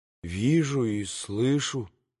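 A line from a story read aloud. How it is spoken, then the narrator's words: Mutter. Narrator (Russian): пробормотал Алеша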